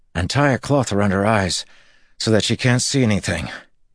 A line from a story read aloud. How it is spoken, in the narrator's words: Matt said, panting, to the men around him